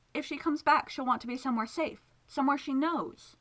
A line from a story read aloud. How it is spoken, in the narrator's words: pleaded